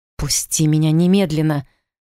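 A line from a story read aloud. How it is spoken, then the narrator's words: Growled. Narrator (Russian): Снова рыкнула я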